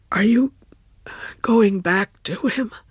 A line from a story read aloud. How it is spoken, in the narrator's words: Ralph gasped